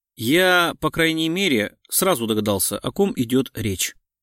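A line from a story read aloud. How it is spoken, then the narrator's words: Grumbling. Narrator (Russian): проворчал Гуров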